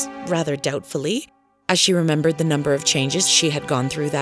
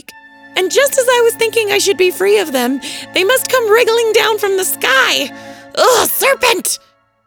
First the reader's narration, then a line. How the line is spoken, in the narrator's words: continued the pigeon, raising its voice to a shriek